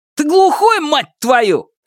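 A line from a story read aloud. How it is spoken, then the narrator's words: Shouted. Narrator (Russian): крикнул Шунь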